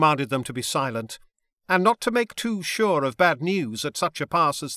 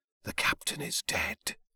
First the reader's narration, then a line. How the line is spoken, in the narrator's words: my men whispered under their breaths